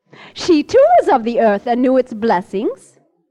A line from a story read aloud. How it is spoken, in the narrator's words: She would laugh and say